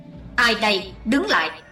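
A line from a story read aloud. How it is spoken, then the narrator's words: Thunderous shout. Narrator (Vietnamese): Nam Tà dở dưỡng quát tợ sấm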